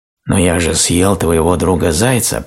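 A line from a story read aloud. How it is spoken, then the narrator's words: Hoarse wheeze, wolf. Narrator (Russian): прохрипел волк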